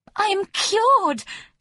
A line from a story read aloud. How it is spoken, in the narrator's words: she cried